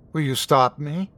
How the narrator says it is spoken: Her voice was hollow, tired

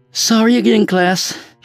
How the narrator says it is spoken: she said breathlessly, nearly collapsing

